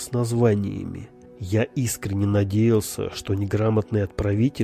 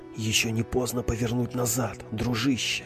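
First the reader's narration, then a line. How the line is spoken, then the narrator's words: Whispered inner voice. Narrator (Russian): шепнул внутренний голос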